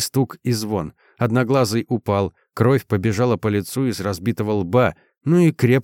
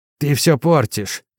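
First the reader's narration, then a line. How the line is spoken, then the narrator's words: Groaned. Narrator (Russian): простонал Одноглазый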